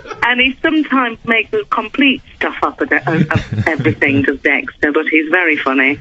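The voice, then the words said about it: Yorkshire English accent. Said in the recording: “I'm originally from Yorkshire. ... that's a lovely accent.”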